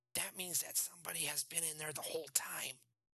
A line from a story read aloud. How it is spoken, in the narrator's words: he whispered